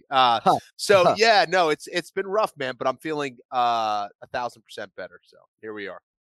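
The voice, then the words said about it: Congested, scratchy voice. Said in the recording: “I had the worst sore throat that I've ever had ... My voice, I'm still a little congested ... My voice is a little scratchy. Sound like shit.”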